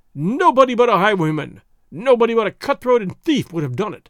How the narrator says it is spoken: he cried aloud

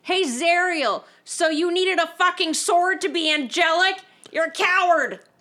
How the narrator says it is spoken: yell out

